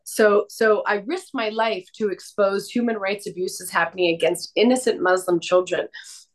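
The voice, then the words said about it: Congested voice from a cold. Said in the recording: “I have a little bit of a cold.”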